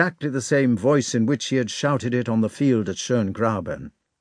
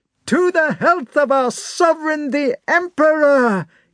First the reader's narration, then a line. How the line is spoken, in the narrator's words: he roared